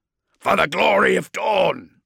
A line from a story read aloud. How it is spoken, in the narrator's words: Tycho roared across the channel